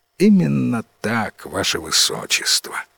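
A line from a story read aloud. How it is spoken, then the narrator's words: Sighing chief wizard. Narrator (Russian): вздохнул самый главный волшебник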